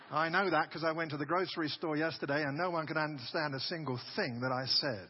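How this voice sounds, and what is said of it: Strong English accent. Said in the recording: “I just got back from England a couple of days ago, so my accent has been refurbished”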